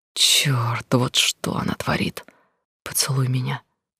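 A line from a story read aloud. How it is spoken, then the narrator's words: Quiet request. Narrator (Russian): тихо попросила она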